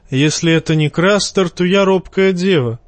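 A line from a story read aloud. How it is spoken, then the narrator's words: Wry snort. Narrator (Russian): хмыкнул Тормунд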